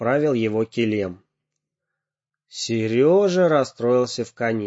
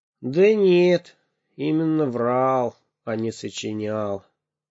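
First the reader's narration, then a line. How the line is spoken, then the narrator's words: Heavy sigh, confessing. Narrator (Russian): тяжело вздохнул и признался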